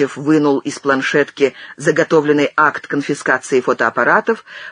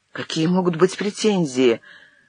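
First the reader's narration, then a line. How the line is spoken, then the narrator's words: Photographer's confused babbling. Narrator (Russian): растерянно пролепетал фотограф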